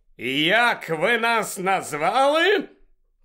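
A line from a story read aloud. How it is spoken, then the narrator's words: Wild centaur's shout. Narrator (Ukrainian): крикнув дикий на вигляд вороний кентавр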